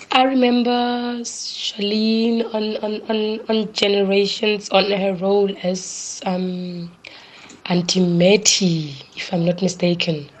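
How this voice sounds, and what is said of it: Lowered, flu-affected voice. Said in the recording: “Excuse my voice. It's a bit down today because of flu.”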